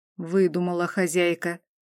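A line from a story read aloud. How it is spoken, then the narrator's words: Quiet unusual grumbling. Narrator (Russian): Тихо и непривычно ворчала Тахира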